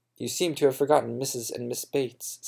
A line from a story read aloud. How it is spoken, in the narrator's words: said Emma